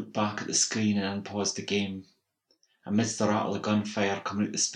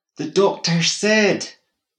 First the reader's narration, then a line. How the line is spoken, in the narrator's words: bawled